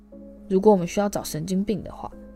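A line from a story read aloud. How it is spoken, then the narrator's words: Low voice. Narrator (Chinese): 荣恩等骑士消失后，才低声说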